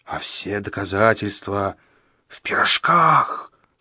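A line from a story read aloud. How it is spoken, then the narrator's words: Frightening wheezing voice. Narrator (Russian): страшным голосом просипел средний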